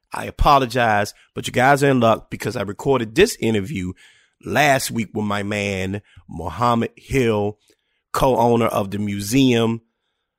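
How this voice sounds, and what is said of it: Raspy, slightly off voice. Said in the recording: “forgive my voice, okay? Over the weekend, I had a pretty bad sinus infection, so my voice is a little raspy. ... Voice is just a little off.”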